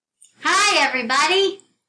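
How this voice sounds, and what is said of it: Shouted greeting. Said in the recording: “Why are you shouting?”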